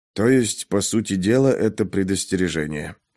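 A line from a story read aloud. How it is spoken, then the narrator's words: Muttering. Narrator (Russian): пробормотал Пейнтер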